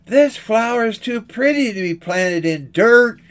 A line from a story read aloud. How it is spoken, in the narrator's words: she cried